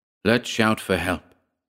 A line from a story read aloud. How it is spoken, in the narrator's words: he said